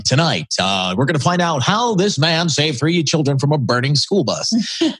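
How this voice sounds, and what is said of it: Cheesy newscaster voice. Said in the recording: “the college newscast, you know, just the cheesy times ... you really did use that accent sometimes ... it was pretty close, honestly. It's not good.”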